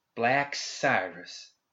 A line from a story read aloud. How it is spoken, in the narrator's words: spat